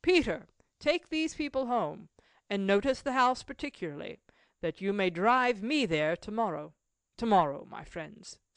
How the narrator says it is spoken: called out

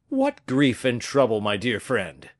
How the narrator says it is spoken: cried the comte

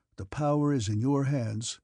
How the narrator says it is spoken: Dron rejoined sadly

